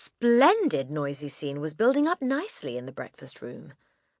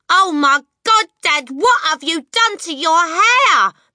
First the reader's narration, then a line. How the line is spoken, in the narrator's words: the son shouted